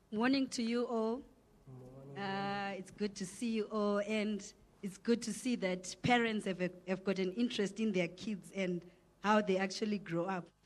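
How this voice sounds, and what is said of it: Croaky, hoarse voice. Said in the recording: “my voice is a bit croaky. I've got the flu ... my voice is not up to scratch”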